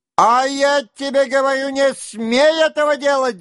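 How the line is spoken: Shouting. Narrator (Russian): закричал Денисов

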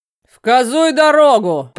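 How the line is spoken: Roared. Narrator (Russian): проревел пузатый сотник

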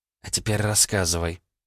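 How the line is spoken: Serious, near whisper. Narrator (Russian): посерьезнела Алиса, понизив голос практически до шепота

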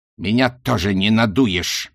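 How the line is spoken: Barking snap. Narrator (Russian): рявкнул Рок

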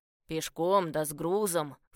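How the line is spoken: Man's scornful snort. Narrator (Russian): фыркнул мужчина

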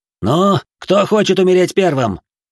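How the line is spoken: Man yelling. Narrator (Russian): Заорал кто-то из людей Нараша

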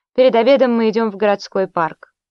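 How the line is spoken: Calm announcement. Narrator (Russian): спокойно объявил

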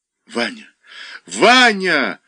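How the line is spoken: Heartrending scream. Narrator (Russian): с душераздирающим криком Даша

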